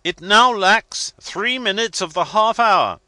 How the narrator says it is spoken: shouted the captain

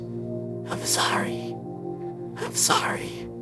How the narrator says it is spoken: softly says

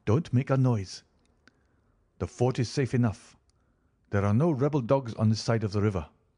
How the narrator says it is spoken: he whispered

